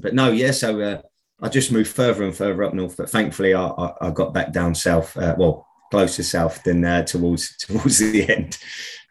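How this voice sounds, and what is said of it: Cockney accent with Birmingham twang. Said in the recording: “I get nicked for my accent up here where I live because I'm a Cockney, as they say ... I get stick for the Birmingham twang that I have”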